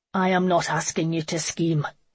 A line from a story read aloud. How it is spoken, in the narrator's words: he snarled